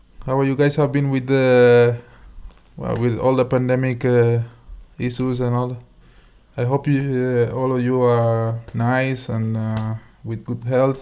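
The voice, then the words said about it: Spanish-accented English. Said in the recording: “beautiful accent ... My Spanish English”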